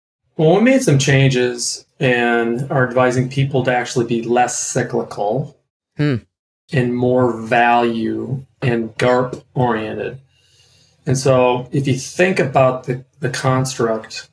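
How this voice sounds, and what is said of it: Slight Minnesota accent. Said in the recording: “there's a little Minnesota accent there for you”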